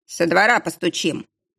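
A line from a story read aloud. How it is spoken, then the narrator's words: Gloomy. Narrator (Russian): мрачно отозвался Кошкин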